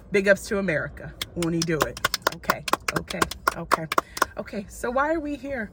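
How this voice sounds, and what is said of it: American-sounding accent. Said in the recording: “as my accent will tell you, I'm also from here”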